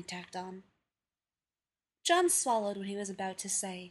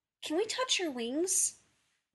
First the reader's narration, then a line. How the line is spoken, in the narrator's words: one of the little girls, asking sweetly, eagerly